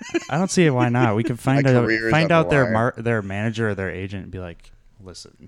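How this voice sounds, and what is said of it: Usual voice. Nothing is said of it.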